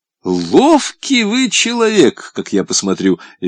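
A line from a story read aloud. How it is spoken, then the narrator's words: Cheerful laughing. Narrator (Russian): весело рассмеялся Бонч-Бруевич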